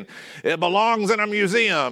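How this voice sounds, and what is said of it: Imitates another person's voice. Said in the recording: “That's my Harrison Ford impression. ... they're not going well so far”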